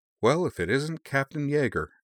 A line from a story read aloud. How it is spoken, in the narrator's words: Campbell replied in the same even tone of voice